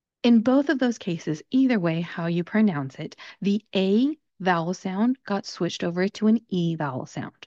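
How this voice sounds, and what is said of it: Southern Californian American English accent. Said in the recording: “I'm from Southern California, and that's the accent that I speak with.”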